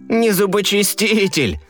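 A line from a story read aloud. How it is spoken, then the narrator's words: Laughing. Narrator (Russian): рассмеялся Щекотун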